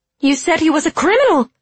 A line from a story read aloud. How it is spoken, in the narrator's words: cried Signy